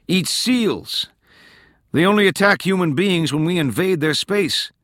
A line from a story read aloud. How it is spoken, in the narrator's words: Tolland yelled